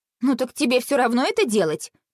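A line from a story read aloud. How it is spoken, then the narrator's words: Snorting. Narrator (Russian): фыркнула Василиса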